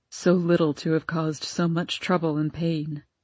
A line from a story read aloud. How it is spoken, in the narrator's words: murmured Papa wearily